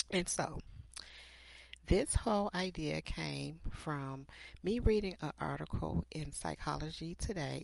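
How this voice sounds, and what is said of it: Scratchy, slightly hoarse voice. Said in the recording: “my voice is a little scratchy. I have some allergies going on here”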